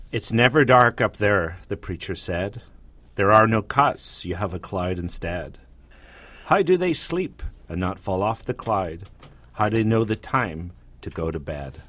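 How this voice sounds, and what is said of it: Irish accent, reading poem aloud. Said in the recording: “you do it in your accent ... Of course, he's Irish, isn't he?”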